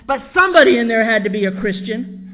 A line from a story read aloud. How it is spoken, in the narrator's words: he barked at them